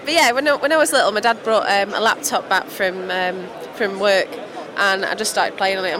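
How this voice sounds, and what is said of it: Mancunian English accent. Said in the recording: “I speak English, but it's with a really Mancunian accent.”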